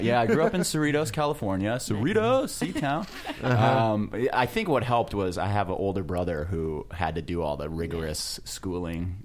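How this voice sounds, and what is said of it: California accent. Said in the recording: “you can probably hear it from the accent ... A California parent ... such a laid back attitude”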